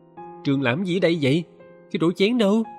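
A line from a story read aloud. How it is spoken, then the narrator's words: Surprised exclamation. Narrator (Vietnamese): Dì Miên ngạc nhiên kêu lên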